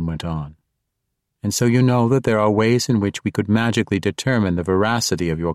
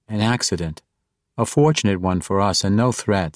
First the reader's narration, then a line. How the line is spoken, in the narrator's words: said Caddy Bree